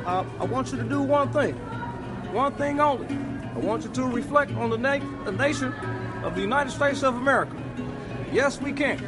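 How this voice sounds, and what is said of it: Barack Obama impression. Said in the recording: “impersonations ... that last bit was Barack Obama”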